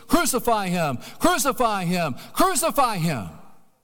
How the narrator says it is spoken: they shouted out with a craze

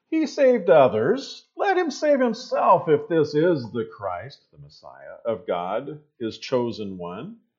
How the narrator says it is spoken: the rulers were sneering at him, saying

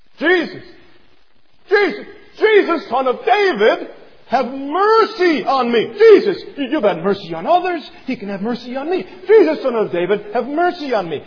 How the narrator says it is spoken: He begins to bellow loud

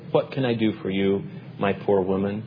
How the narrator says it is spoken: he inquired as kindly as he could

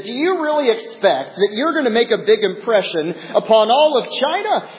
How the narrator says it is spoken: someone kind of smirked and laughed and said

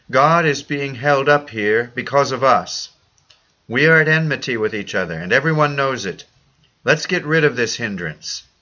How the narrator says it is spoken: Cao, cried out to a colleague

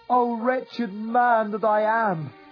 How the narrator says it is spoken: cried

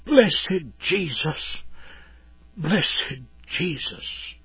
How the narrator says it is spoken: in a faint whisper said

